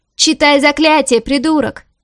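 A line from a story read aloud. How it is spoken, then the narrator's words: Shouting companion. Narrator (Russian): крикнул кто-то из его товарищей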